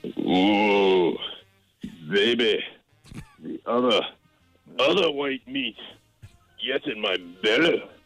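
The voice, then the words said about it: Fat Bastard impression. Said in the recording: “I'm going to start you off with a little fat bastard. ... his impression”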